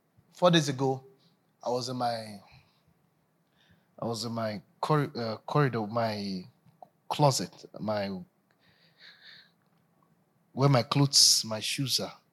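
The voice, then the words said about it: Voice affected by a cold. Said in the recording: “I have a little cold.”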